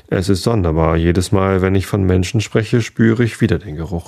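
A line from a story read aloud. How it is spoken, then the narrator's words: Plain. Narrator (German): sagte er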